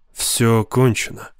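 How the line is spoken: Grim. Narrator (Russian): мрачно произнес МакГарри

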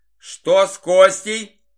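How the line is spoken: Shouted toward distance. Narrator (Russian): выкрикнул Игорь в сторону укрепгородка

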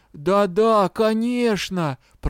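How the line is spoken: Groan. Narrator (Russian): простонал гном

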